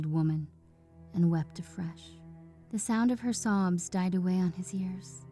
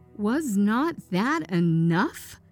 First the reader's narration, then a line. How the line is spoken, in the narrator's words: he demanded fiercely